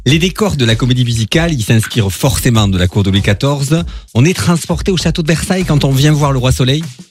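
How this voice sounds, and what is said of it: Southern French accent. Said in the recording (French): “je suis dans le sud de la France? Il me parle avec un accent ... je suis natif de Béziers ... j'ai jamais perdu mon accent ... ça s'entend”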